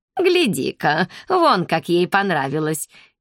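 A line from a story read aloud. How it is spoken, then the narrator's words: Giggling. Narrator (Russian): хихикнула Кымнам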